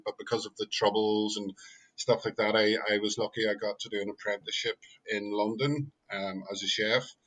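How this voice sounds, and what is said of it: Northern Irish Belfast accent. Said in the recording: “I'm originally from Belfast, as you can tell by my accent”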